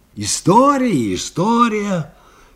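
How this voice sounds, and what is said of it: Mocking mimicry of blacksmith. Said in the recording (Russian): “передразнил Анискин”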